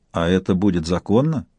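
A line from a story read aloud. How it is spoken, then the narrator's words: Mock-serious question. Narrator (Russian): Поддерживая игру, самым серьезным тоном спросила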